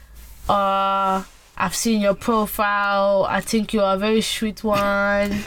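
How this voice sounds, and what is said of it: Put-on accent. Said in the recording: “Is the accent for me?”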